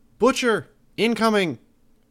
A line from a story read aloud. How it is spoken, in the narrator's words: called out